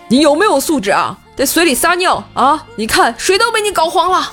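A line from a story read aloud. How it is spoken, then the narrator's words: Sudden angry yell. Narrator (Chinese): 突然他对着我吼道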